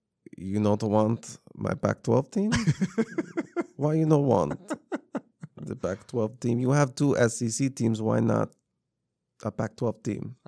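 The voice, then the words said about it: Mock Russian accent. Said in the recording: “He just needs a little bit of Russian accent.”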